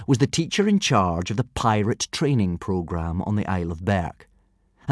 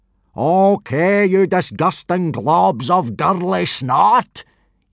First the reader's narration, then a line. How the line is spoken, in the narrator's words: yelled Gobber, in a bellow so loud it could be heard several miles away